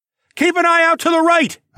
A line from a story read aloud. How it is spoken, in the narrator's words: I shouted